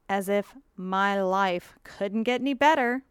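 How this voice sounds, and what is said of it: Sarcastic delivery. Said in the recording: “was sarcasm”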